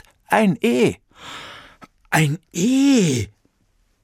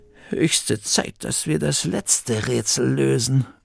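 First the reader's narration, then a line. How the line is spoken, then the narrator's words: Murmur. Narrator (German): murmelte Bertha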